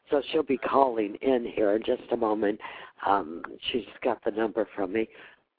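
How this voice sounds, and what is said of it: Congested voice cutting in and out. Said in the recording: “I have a head cold, and I keep my voice is going in and out and in and out”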